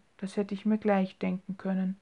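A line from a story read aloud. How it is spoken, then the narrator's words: Quietly to herself. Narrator (German): sagte sie leise vor sich hin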